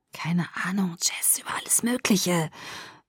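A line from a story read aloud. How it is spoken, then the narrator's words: Whispered back. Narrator (German): flüsterte ich zurück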